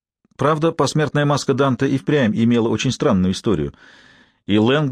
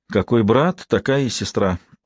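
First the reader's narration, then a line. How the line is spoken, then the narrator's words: Sighing to herself. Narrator (Russian): вздохнула про себя Марта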